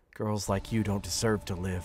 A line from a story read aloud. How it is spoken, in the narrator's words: muttered